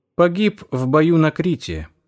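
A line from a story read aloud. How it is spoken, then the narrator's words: Plain. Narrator (Russian): ответил Найтингейл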